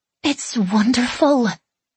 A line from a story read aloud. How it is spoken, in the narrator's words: she breathed